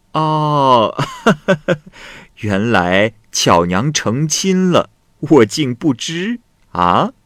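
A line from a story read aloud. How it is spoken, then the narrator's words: Laughing. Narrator (Chinese): 华姑笑着说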